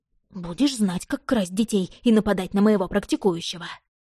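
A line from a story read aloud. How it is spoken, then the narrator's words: Hoarse croaking raven. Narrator (Russian): Позади хрипло каркнул ворон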